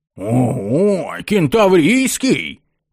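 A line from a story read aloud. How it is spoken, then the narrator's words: Ecstatic yell. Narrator (Russian): восторженно завопил первый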